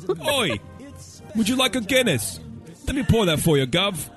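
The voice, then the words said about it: Fake British accent. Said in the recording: “British ... Practice the your fake accent.”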